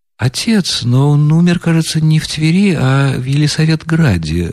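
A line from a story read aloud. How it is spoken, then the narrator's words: Timid remark. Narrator (Russian): робко заметил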